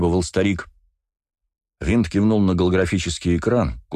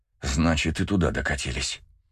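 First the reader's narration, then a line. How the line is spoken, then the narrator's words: Hoarse through gritted teeth. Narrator (Russian): стиснув зубы, прохрипел землянин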